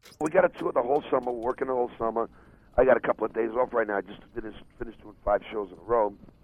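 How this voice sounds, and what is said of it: Raspy voice. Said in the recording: “My voice is a little raspy”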